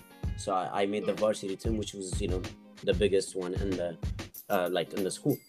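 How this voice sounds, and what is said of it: Speaks with an accent. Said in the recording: “they were making fun of my accent”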